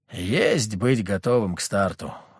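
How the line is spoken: Sigh. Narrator (Russian): вздохнул

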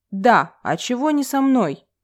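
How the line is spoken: Deep bass voice. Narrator (Russian): пробасил Рой

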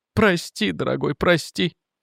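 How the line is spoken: Sobbing. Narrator (Russian): всхлипывала она

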